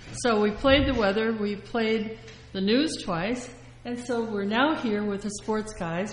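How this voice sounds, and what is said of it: Out of breath. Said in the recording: “I'm out of breath.”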